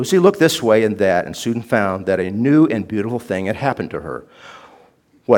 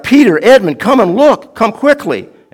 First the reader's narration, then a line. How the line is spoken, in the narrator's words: she at once cried out